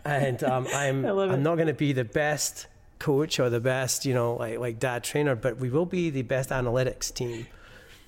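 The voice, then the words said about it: Foreign-born speaker's accent. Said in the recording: “from my accent, you may be able to tell I wasn't born here”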